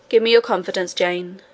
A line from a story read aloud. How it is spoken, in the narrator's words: he said